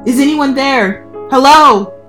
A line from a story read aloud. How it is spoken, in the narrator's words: I screamed